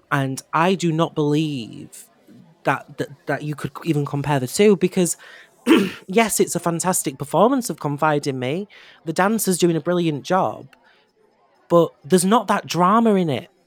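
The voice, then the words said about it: Hoarse, fading voice. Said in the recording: “Sorry, I'm losing my voice. ... you must be catching my lurgy”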